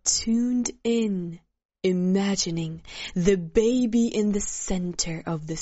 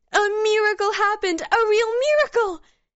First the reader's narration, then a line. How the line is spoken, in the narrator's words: Yelena exclaimed